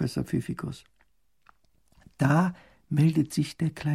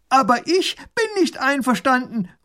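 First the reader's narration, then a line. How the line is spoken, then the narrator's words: Calling across. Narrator (German): ruft er herüber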